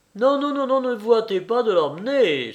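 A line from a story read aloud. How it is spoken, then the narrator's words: Innkeeper exclaiming. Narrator (French): s'écria l'aubergiste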